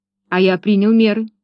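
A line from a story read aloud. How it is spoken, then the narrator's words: Plain. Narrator (Russian): ответил Лестер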